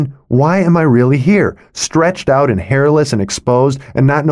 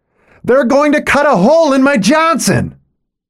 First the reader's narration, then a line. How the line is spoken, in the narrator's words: a grown man screaming